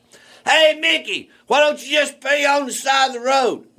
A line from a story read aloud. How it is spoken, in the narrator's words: the guy's in a white Ford pickup hollers